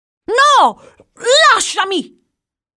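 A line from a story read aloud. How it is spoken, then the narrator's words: Shouted. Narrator (Italian): gridava Jack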